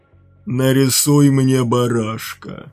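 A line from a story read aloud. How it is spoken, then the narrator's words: Hoarse rasp. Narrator (Russian): прохрипел он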